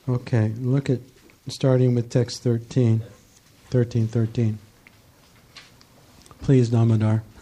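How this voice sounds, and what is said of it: Hoarse, strained, failing voice. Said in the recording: “I'm losing my voice here.”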